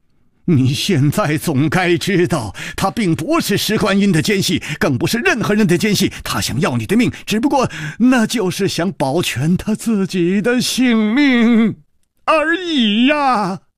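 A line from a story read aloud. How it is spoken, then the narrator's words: Angry roar. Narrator (Chinese): 李玉涵怒吼道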